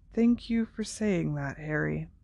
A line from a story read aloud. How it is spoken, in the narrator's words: said Dumbledore quietly